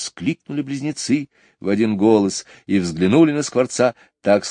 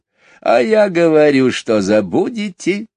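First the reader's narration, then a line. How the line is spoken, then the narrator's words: Laughing starling. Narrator (Russian): рассмеялся скворец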